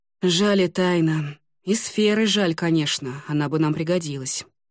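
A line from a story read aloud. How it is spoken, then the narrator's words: Sighing. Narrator (Russian): вздохнул Ламинар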